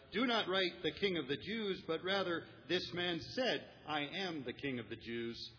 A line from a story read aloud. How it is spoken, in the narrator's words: Pilate answered